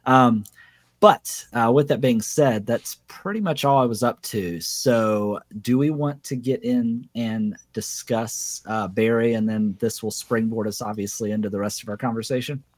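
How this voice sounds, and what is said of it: Raspy voice. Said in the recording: “I'm not feeling well ... My voice is a little raspy.”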